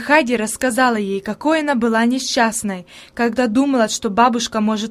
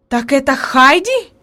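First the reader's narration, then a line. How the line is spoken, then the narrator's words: Exclamation. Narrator (Russian): воскликнула наконец она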